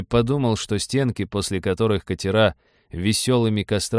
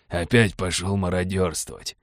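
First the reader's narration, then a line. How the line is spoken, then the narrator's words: Gruff mutter. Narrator (Russian): буркнул адмирал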